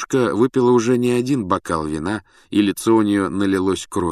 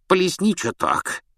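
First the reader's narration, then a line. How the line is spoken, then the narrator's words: Hoarse giggle. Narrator (Russian): хрипло хихикнула она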